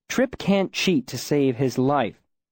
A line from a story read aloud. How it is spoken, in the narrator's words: I said a little more sharply than I had intended